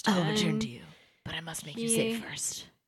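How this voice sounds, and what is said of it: Impression of the Edward character. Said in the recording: “my Edward impression”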